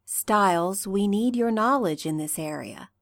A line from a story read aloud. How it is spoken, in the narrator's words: Deaton says calmly